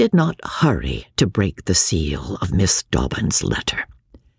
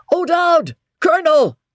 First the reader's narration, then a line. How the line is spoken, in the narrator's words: He shouted